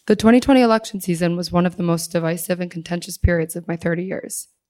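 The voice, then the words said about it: Hoarse, strained voice. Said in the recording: “I lost my voice”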